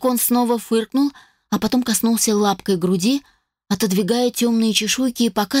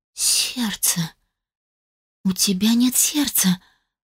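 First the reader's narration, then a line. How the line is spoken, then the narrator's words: Shocked breathless exhale. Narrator (Russian): Потрясенно выдохнула я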